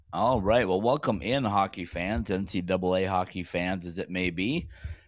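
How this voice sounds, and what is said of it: Raspy, rough voice. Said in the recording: “a raspy-voiced ... I don't sound as raspy as you ... I'm sounding kind of tough”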